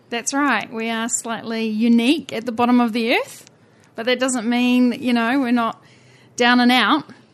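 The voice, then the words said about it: New Zealand accent. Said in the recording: “your accent and my accent, mostly because around the world, the Kiwis”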